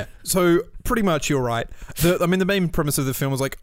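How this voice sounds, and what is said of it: Usual voice. Nothing is said of it.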